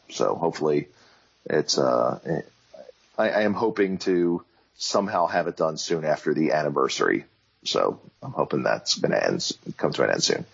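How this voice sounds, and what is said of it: Strained, worn-out voice. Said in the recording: “as you can hear, my voice is getting wrecked”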